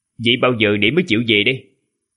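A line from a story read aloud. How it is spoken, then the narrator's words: Cold retort. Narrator (Vietnamese): Gã lạnh lùng vặn lại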